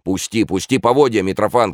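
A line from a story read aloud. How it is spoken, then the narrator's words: Shout. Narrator (Russian): крикнул он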